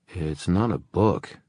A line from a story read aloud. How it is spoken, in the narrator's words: Julian said in a slightly odd voice